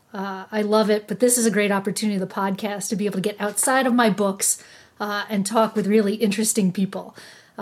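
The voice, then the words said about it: New York-Philadelphia accent, long A's. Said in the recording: “you can probably tell from my accent, long A's, just that New York, Philadelphia twang”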